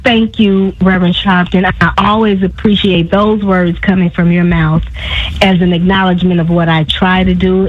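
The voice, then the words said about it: Allergy-affected, strained voice. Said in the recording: “Forgive my voice. I'm still fighting allergies”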